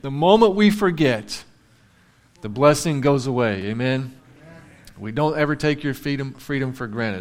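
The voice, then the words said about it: Emotional, choked-up speaking voice. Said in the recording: “Sorry, I got a little emotional.”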